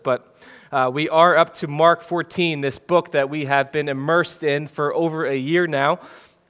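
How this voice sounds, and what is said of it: Congested voice. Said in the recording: “in my congested voice... through the common cold”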